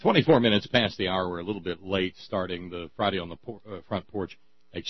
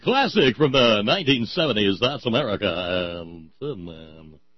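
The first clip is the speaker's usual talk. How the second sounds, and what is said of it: Cheesy radio DJ voice. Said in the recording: “icky DJ voice”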